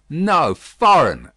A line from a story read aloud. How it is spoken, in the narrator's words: cried Carton, as a light broke clearly on his mind